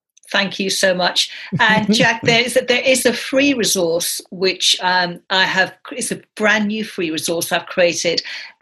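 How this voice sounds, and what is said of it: Speaks with a foreign accent. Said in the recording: “I love your accent”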